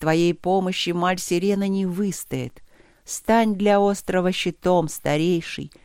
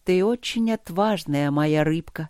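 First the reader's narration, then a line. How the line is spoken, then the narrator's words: Tender, affectionate. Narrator (Russian): сказала, ласково обнимая девочку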